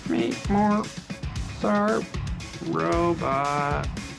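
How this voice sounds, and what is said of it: Bad imitation robot voice. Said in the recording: “do the robot voice... That's a terrible robot voice.”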